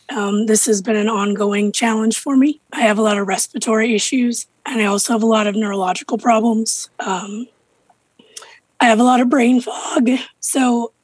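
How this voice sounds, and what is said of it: Very hoarse voice. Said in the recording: “as you can hear, my voice is incredibly hoarse today.”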